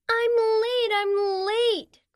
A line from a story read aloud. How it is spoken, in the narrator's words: cried Sloane Sloth